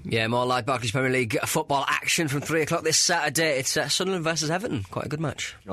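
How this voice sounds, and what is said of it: Radio DJ voice. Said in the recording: “I like your DJ voice.”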